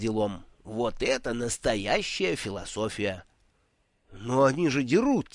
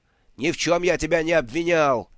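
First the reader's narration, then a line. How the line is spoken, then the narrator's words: Yelled just as loudly. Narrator (Russian): не менее громко орал другой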